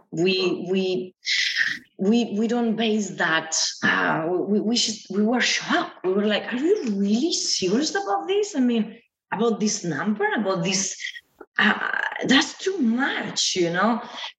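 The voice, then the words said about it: Speaks English with an accent. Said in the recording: “I'm sorry about my accent”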